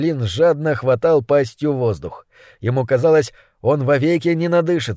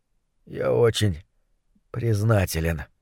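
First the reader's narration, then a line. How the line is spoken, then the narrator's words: Hoarse voice. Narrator (Russian): хрипло проговорил Гуталин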